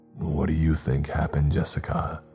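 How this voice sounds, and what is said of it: Somber voice. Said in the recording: “he asked in a somber voice.”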